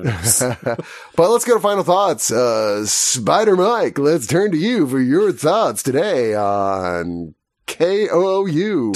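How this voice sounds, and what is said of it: Radio announcer voice. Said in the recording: “announcer voice”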